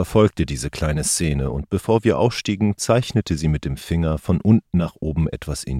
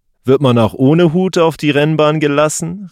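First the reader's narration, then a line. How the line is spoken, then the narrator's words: Calling out to them. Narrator (German): rief Killer ihnen zu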